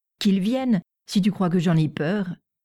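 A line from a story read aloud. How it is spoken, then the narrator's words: Defiant tone. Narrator (French): répliqua André d'un ton de défi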